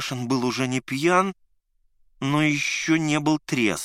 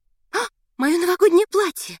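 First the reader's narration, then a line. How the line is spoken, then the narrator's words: Shriek. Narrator (Russian): Взвизгнула Надя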